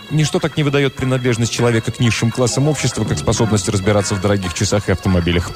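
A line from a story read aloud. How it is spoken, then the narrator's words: Quick addition. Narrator (Russian): быстро добавил Марковин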